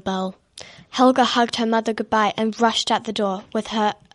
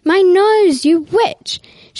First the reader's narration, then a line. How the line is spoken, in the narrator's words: She yelled